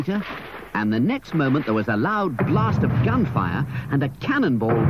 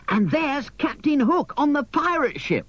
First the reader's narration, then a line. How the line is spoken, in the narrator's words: exclaimed Michael, jumping up and down with excitement